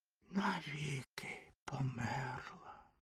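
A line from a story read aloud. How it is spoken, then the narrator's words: Whispered. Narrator (Ukrainian): прошепотів вогняний фонтан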